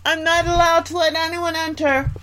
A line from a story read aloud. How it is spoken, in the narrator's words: little Snow White called out